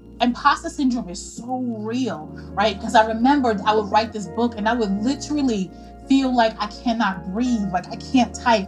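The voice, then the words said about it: New York accent. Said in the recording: “As a New Yorker, your accent is like a warm hug to me.”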